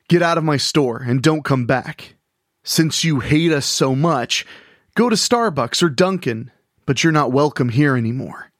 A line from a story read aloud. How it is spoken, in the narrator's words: Frankie shouted